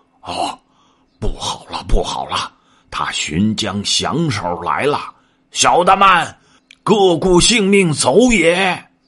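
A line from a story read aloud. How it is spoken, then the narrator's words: Panicked roaring and panting. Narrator (Chinese): 呼呼吼吼，喘喘呵呵，众小妖都现了本身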